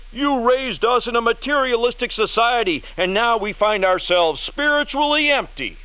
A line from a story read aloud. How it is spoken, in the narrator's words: The next generation, the boomers, shout